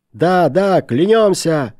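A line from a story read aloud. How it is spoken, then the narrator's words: Shouting in unison. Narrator (Russian): закричали все в один голос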